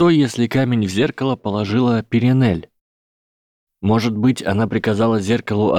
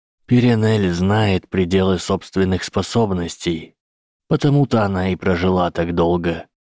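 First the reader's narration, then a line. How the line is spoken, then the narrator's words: Plain. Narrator (Russian): ответил профессор Квирл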